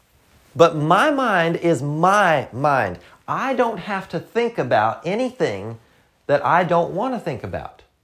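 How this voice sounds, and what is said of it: Southern American accent. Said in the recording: “I know sometimes the accent can mess with you. I'm from the South”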